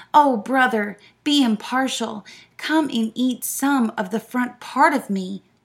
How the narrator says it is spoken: the lion cried

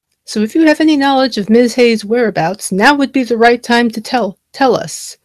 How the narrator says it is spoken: Jergins barked

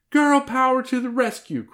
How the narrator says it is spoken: cried Hillary

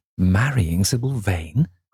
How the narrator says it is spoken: cried Lord Henry, in perplexed amazement

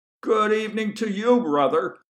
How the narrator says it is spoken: he shouted at Lester in an attitude of false good humor

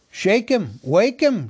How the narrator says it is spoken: shouted the others impatiently

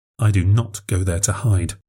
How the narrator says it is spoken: I mumbled

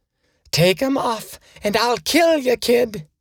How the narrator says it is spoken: the waning words

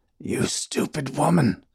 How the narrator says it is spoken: Dumont rasped

